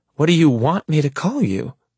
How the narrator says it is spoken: She asks indignantly

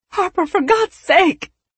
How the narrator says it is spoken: Patricia cried

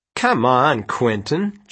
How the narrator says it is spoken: Janet scoffed

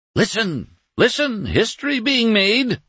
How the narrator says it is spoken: Doremus cried at his heedless family

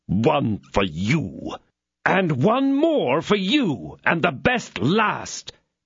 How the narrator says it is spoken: cried D'Artagnan

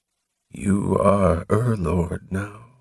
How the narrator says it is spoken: murmured Morham

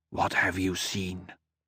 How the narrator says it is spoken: He whispered

